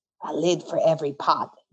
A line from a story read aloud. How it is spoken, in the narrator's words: Jean whispered